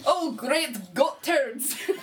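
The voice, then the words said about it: Put-on Scottish accent. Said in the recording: “Sounds Scottish. ... you're not sounding like yourself.”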